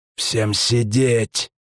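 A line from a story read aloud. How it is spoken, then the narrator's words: Hissing. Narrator (Russian): прошипел очкарик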